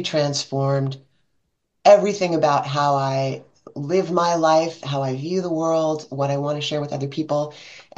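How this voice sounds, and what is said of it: American accent. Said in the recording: “you can tell by my accent, I'm in the United States.”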